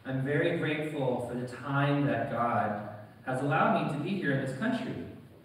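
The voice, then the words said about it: American accent. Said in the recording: “you can probably tell from my accent, I am American.”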